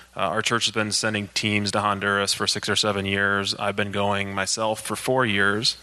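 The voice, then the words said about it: Flat monotone voice. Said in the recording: “you have to listen to my monotone voice now.”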